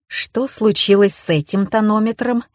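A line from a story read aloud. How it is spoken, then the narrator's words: Icy question. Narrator (Russian): ледяным тоном спросила Маша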